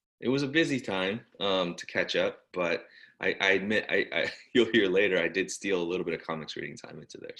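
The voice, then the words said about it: Slightly congested voice from cold. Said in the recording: “I am recovering from a cold that had me knocked out. I don't know if you can hear it in my voice ... A little bit. I can hear it.”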